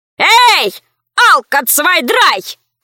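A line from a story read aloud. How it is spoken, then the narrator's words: Shouted. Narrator (Russian): крикнул Валера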